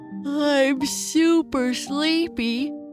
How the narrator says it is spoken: Papa Bear said as he covered his mouth while he yawned

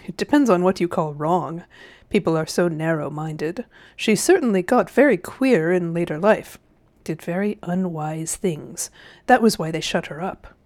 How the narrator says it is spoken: said Uncle Andrew with a chuckle

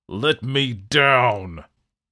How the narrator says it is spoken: the devil roared

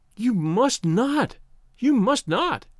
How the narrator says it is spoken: she cried wildly

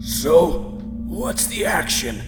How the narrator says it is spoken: barked Berkman

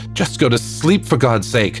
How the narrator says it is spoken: Papa screamed

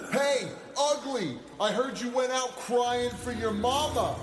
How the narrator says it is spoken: Sarge shouted at the apparition

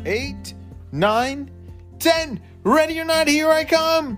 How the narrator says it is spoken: screamed Maya

